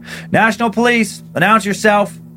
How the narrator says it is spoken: shouted

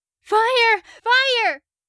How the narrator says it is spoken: screamed

